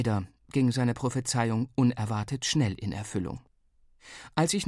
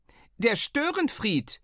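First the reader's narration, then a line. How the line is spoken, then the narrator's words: Called back. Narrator (German): rief der Unwirsch zurück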